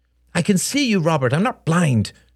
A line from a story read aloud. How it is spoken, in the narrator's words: snapped Helen